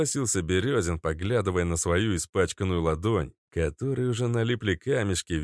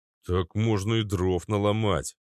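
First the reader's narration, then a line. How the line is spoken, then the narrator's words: Grumbling. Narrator (Russian): проворчал Березин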